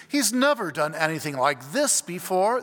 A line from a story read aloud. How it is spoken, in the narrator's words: the gentleman exclaimed